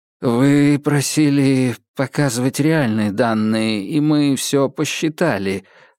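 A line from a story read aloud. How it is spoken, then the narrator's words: Mumbled. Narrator (Russian): промямлил Гордеев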